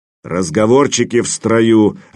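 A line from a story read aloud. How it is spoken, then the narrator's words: Barked. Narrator (Russian): рявкнул Ватан, оскалившись не хуже лохмача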